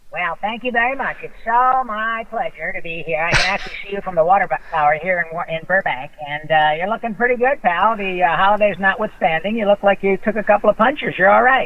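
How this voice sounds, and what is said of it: Cartoon character voice. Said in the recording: “You doing that voice. It's incredible.”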